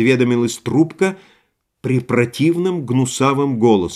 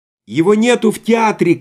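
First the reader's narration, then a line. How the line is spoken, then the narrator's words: Shout cut off. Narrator (Russian): крикнул было Варенуха, но трубка тотчас его перебила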